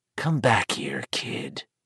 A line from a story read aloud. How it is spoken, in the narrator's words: the hoarse voice whispered